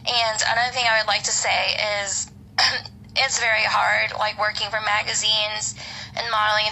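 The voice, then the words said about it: Tired, worn-out voice. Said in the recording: “You can probably tell by my voice, I haven't slept in a while”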